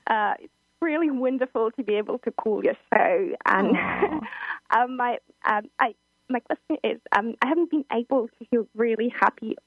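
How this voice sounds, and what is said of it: British London accent. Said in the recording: “I love your accent, by the way. ... We want your accent.”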